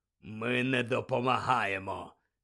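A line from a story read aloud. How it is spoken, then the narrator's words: Stern hoarse voice. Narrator (Ukrainian): сказав суворим, хриплим голосом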